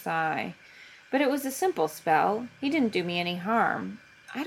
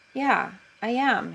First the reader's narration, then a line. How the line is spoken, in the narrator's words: he says, hoping his cheeks aren't colored too brightly